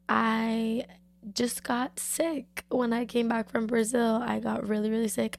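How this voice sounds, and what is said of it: Slightly raspy recovering voice. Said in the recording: “losing my voice ... it's still kind of like, still sounds a little raspy”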